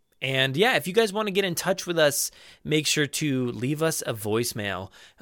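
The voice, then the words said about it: Raw, strained voice. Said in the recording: “my voice very much is raw right at the moment”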